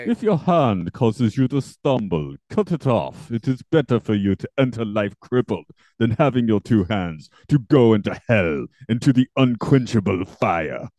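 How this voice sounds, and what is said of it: Put-on vaguely Dracula-like accent. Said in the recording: “I don't know what accent I was doing. It wasn't quite Dracula.”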